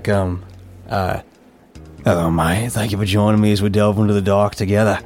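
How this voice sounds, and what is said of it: Aussie-sounding put-on accent. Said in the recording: “my Grant accent is very Aussie ... I was trying to do British, but it didn't really pan out”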